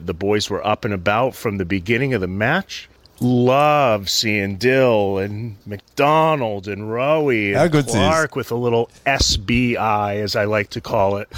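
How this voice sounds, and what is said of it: American accent. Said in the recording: “How good's the American accent saying quintessentially Australian things?”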